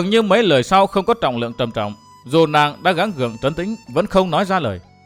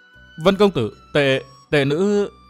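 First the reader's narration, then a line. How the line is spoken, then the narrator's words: Hesitant. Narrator (Vietnamese): miệng ngập ngừng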